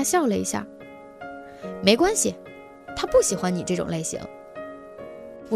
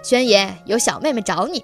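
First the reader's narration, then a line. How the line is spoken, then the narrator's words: Cheerful loud call. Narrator (Chinese): 他笑嘻嘻地，大声喊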